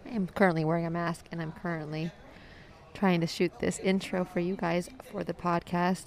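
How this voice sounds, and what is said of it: Hoarse, nearly lost voice. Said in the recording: “I've clearly lost my voice, as you can hear.”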